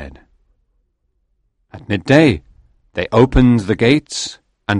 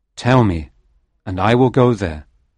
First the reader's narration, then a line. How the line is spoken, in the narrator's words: I answered